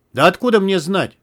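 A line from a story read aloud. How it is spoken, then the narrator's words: Irritated, from below. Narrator (Russian): раздраженно донеслось снизу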